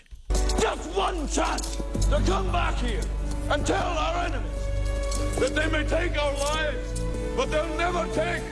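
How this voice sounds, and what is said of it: Put-on Scottish accent, rousing speech. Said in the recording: “I swear that's not what William Wallace said. Was that me? I thought it was a pretty good Scottish impression.”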